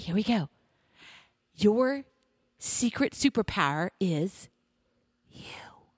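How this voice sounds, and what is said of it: Whispering. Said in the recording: “lean in because I'm going to whisper it to you”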